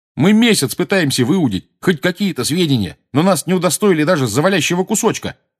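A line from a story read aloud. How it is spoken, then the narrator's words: Shouted. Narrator (Russian): крикнул Джордж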